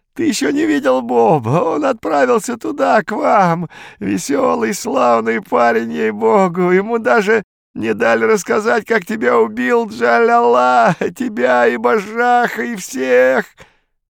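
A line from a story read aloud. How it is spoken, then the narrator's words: Sobbing laughter. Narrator (Russian): Виконт разразился рыдающим хохотом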